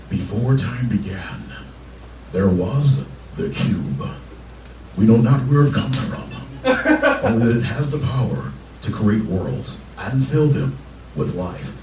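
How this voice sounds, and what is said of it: Optimus Prime character impression. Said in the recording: “do an impersonation? ... it's of Optimus Prime”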